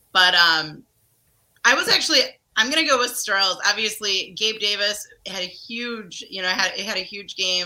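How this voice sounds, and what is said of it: Strained, recovering voice. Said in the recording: “my voice is still working on coming back, and it's been, 6 days? So I'm struggling a little bit still”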